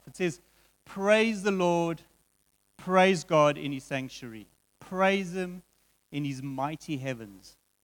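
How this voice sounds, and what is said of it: Slow, deliberate reading. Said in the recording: “read it slowly”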